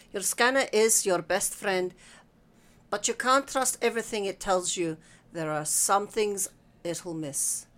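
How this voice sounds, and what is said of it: Clear, formal lecturing accent. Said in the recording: “her accent changed to a clear and formal one the professors used in dusty lecture halls.”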